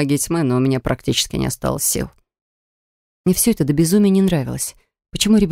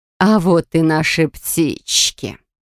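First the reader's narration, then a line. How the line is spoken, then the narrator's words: Creaky voice from behind. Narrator (Russian): проскрипел голос позади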